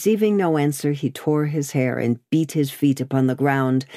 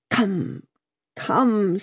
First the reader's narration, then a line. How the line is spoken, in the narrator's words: said he, in a whimpering, miserable way